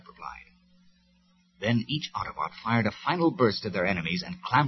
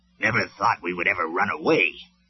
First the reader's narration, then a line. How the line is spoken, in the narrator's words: Huffer grumbled